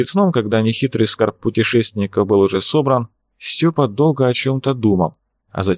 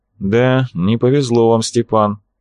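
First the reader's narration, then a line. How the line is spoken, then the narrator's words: Gloomy tone. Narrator (Russian): мрачным тоном ответствовал Арцулов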